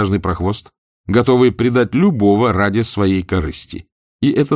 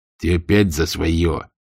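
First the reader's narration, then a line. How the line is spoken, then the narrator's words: Grumbling. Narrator (Russian): заворчал Сэм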